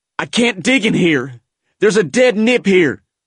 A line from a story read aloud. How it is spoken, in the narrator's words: growled